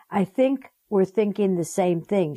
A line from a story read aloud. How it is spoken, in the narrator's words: she replied